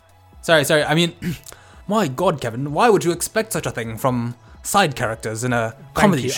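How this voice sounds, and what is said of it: Put-on British accent. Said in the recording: “Some British accent.”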